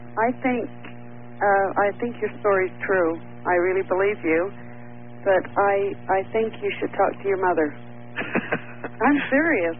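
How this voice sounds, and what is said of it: Quiet voice with a cold. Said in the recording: “I can barely hear you. ... I've got a cold.”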